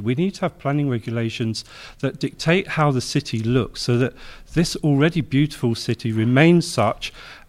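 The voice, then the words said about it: London English accent. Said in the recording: “As you can tell from my voice, I come from a jurisdiction, London”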